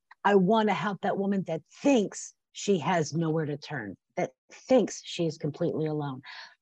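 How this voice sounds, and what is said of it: Tearful, emotional voice. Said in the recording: “I'm getting teary-eyed.”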